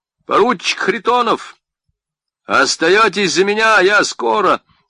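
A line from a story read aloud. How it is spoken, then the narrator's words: Commander shouting from afar. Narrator (Russian): ротный крикнул издали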